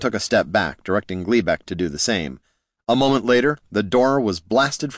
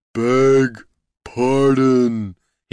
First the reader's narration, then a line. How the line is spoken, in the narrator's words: he roared